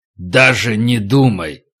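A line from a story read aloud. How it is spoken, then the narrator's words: Fierce, through gritted teeth. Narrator (Russian): Олег бросил свирепый взгляд на Стаса и процедил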